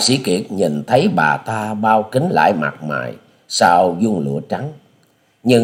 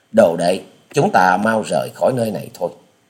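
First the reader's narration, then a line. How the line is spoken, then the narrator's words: Soft sigh, then telling. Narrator (Vietnamese): Hà Xà tiên tử nhẹ buông tiếng thở dài, quay đầu bảo với Tạ Trinh Trinh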